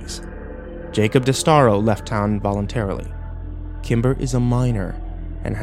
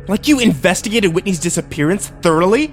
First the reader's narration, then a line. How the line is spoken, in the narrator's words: I spat